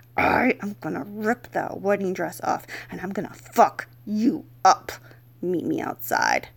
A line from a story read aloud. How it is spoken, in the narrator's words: violently pulled my head close to his and growled